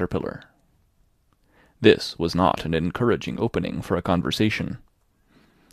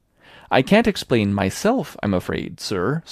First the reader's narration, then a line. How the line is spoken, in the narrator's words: said Alice